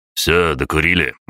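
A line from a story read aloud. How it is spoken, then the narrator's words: Barked shout, major. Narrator (Russian): гаркнул майор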